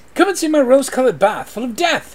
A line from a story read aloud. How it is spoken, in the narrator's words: cried